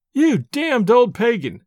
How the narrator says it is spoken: I cried, laughing aloud in his face

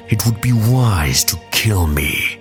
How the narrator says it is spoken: Maul said, his voice weakened by the death of his brother, and by his own horrifying defeat at the hands of his former master

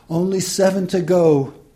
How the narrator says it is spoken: the inexperienced nurse chirps

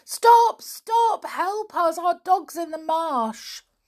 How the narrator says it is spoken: George yelled to it

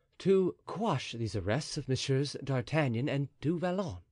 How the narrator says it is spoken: said Athos calmly

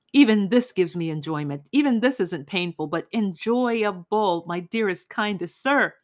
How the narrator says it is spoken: he cried, being shaken by his hair and even bumping his forehead on the floor

